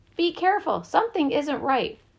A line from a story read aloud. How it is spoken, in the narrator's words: called out